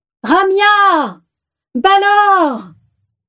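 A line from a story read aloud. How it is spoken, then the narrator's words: Screaming at full lungs. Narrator (French): hurlait-elle à plein poumon depuis plus d'une demi-heure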